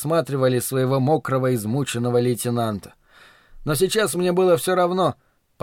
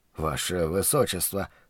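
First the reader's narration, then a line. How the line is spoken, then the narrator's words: Mumble. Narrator (Russian): пробормотал я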